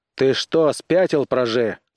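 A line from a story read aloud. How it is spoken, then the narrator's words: Shouted. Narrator (Russian): крикнул он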